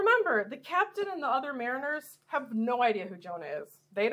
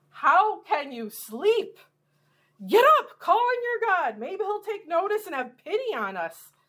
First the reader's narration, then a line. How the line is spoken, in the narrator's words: in the captain's frantic state, he exclaims to Jonah